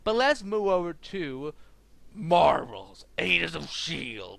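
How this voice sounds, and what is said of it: Gravelly Batman-style deep voice. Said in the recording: “do that voice? I'm not Batman. I don't have throat cancer”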